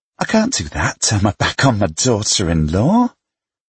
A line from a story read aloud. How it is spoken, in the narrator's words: Mum scoffed